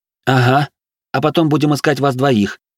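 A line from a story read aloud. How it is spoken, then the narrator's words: Muttered. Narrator (Russian): буркнула Вероника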